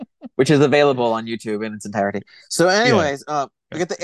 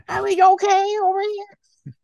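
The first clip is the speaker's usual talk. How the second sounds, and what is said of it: Imitated character voice. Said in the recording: “my impression of the first scene of Captain EO”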